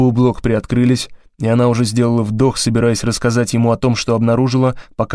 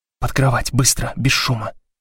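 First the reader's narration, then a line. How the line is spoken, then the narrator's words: Whisper. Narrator (Russian): прошептала Блок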